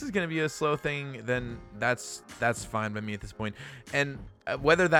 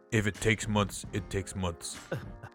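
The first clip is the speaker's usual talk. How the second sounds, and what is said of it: Imitates the Drago character voice. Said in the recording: “in my best Drago voice”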